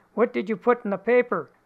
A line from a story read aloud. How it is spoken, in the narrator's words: her husband asks